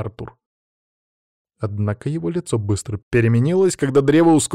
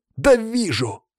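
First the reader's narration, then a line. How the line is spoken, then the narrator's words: Snapping. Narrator (Russian): огрызнулся Даня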